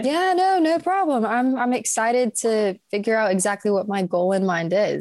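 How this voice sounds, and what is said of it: American accent. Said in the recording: “Probably our listeners can tell by now that you've got an American accent.”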